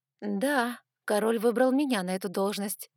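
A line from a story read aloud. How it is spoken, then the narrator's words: Forcedly calm answer. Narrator (Russian): как можно более спокойно ответила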